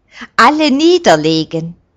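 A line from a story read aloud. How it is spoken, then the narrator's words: Loud command. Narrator (German): gibt Roberto den Befehl sehr laut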